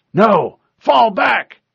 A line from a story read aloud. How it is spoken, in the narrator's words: The Spartan yelled